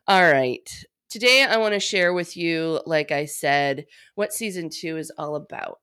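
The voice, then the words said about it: Stuffy, congested voice. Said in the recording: “hear it in my voice, I'm quite stuffy”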